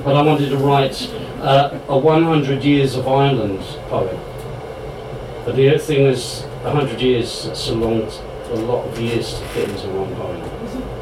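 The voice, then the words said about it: English accent. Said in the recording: “my Sassenach accent.”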